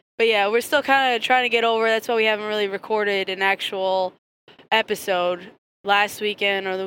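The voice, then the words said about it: Hoarse, sick-sounding raspy voice. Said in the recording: “we've been sick for the past week and a half ... You can probably tell by your voice. ... I sound like a 70-year-old smoker. ... Cat lady.”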